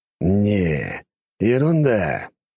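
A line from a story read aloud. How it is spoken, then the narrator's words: Sighing. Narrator (Russian): вздохнул Белмар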